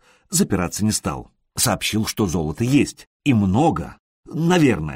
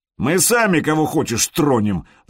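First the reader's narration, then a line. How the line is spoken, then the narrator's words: Loud laughter. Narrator (Russian): захохотал Харальд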